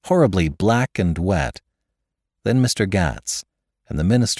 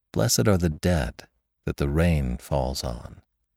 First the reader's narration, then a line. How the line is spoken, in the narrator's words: Dimly I heard someone murmur